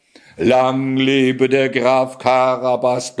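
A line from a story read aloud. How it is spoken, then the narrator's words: Man thundering. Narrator (German): donnerte ein Mann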